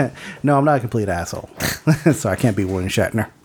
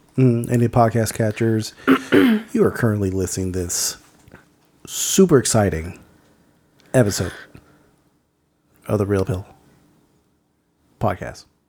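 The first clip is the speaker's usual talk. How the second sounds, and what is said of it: NPR radio announcer voice. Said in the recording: “That's my NPR impersonation ... I thought you were trying to invoke William Shatner, but poorly.”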